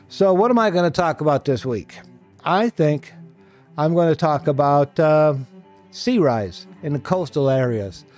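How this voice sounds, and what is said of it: Slightly off, congested voice. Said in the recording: “My voice is a little off. I returned from my trip with a cold.”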